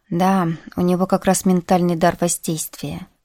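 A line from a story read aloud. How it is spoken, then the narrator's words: Calm. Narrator (Russian): произнес Иван спокойно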